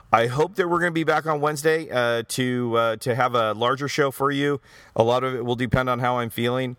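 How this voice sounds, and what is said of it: Strained, worn-out voice. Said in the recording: “as you can tell, my voice is actually running out”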